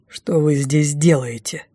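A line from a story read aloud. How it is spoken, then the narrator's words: Rude interruption. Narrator (Russian): Грубо прервал нашу милую беседу Райф Дефос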